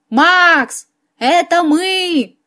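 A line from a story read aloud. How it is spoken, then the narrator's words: Shouting through cupped hands. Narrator (Russian): крикнула я ему, сложив ладони рупором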